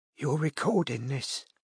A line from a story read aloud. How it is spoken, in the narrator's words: she whispered at last